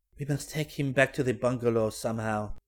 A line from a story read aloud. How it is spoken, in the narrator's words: murmured